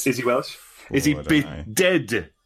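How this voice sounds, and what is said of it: Deliberately bad put-on Welsh accent. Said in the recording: “That's my awful Welsh accent.”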